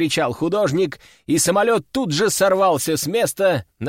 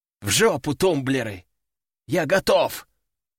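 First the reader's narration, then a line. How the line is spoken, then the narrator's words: Growling. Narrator (Russian): рыкнул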